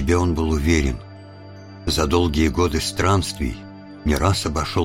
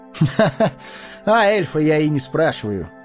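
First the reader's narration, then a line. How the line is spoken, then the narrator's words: Laughing. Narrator (Russian): засмеялся Арагорн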